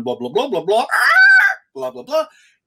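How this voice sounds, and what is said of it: Joyous bird-like squawking voice. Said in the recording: “in moments of joyous transport, he would squawk like a bird”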